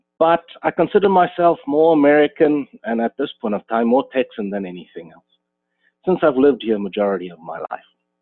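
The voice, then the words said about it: South African accent. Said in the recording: “As you can hear from my accent, I didn't grow up in America. I'm originally from South Africa myself.”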